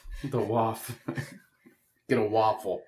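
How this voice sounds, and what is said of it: Bad put-on Boston accent. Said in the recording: “your horrible Boston accent”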